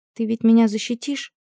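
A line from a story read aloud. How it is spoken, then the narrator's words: Whisper. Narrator (Russian): прошептала Лютому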